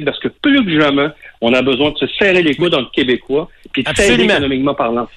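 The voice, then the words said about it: Magdalen Islands French accent. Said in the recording (French): “aux des îles, puis qu'on entend votre accent”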